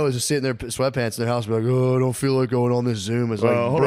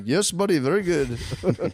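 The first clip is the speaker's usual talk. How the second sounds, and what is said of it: Put-on South Asian accent. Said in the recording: “Guy from fucking Nepal just be like ... Excuse my accent ... you're talking to 4 Indian guys at once”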